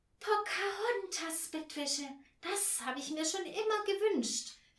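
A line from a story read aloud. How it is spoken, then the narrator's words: Cat calling out. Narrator (German): rief die Wanderkatze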